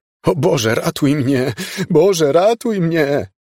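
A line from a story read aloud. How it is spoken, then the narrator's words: Groaned. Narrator (Polish): jęknął Miles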